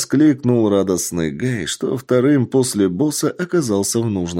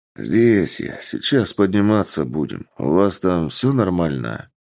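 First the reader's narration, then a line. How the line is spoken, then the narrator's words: Tired reply. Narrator (Russian): Усталым голосом ответил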